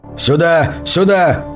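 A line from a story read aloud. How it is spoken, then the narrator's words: Shouting. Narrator (Russian): закричал он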